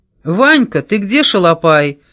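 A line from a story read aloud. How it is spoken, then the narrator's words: Booming bark. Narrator (Russian): зычно рявкнул Кис с порога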